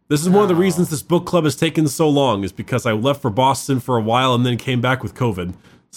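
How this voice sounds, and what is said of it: Nasal, congested voice. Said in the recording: “if you can't tell from my voice, I currently have COVID ... I'm just a little nasally.”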